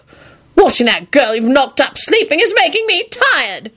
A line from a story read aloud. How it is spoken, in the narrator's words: he yelled irritably